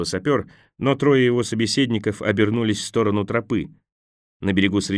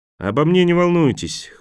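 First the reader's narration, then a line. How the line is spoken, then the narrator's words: Sapper snorting. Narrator (Russian): хмыкнул сапер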